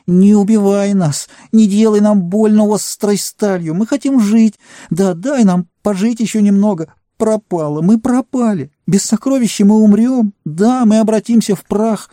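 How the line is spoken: Whimpering plea. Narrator (Russian): Он заскулил

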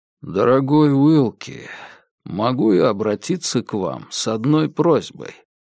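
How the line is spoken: Very quiet, barely audible. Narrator (Russian): Он говорит так тихо, что я с трудом разбираю слова

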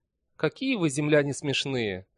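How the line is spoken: Laughing. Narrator (Russian): засмеялась она

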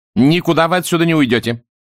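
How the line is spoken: Sharp. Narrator (Russian): резко сказал полковник

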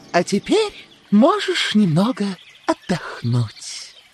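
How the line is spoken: Gentle female voice. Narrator (Russian): Королева сказала ласково

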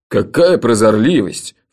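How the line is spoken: Snorting. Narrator (Russian): фыркнул Джуфин

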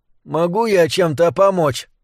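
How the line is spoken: Hoarse rasp. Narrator (Russian): прохрипела Вик

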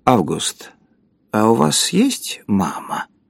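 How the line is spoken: Strange voice. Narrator (Russian): сказал странным голосом

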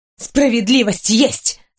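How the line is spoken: Through gritted teeth. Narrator (Russian): сквозь зубы сообщила Уйме бывшая красавица

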